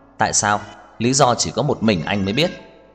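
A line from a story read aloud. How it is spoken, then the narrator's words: Cold. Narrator (Vietnamese): Trang Hạo Nhiên lạnh lùng nói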